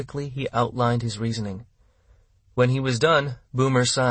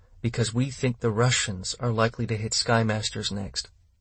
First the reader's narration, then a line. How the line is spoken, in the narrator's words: he said flatly